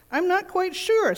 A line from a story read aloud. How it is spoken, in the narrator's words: said the chair